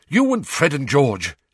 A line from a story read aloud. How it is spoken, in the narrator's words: she said impatiently